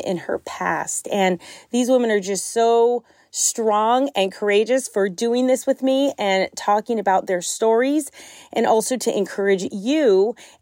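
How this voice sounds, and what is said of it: Strained, fading voice, near tears. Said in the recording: “my voice, it sounds like I'm on the verge of just crying every time I open my mouth ... I was literally losing my voice”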